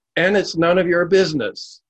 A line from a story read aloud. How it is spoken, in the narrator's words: the laborer bellowed back